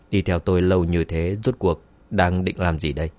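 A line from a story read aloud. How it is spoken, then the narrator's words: Cold sneering. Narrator (Vietnamese): Dương Chấn cười lạnh, lạnh lùng nói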